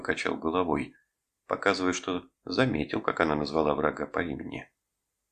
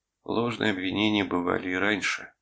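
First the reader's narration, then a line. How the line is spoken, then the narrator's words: Tired. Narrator (Russian): устало произнес я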